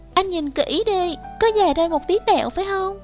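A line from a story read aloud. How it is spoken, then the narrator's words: Pleading. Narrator (Vietnamese): nó năn nỉ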